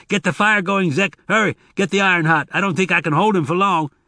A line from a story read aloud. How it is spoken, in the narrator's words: The breath was knocked from him, but Tobias managed to shout